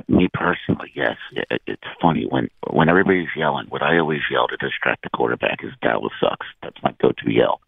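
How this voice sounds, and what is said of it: Hoarse, froggy strained voice. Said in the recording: “what does my voice sound like to you? ... Oh, my God. Wow. ... It hurts to talk so bad. ... It's a little froggy.”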